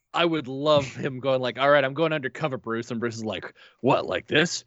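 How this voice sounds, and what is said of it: Usual voice. Nothing is said of it.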